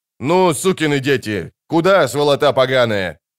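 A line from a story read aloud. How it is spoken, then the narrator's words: Furious yelling. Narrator (Russian): орал он, подкрепляя каждый рык ударом кулака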